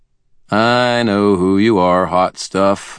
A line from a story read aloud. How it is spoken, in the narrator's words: I drawled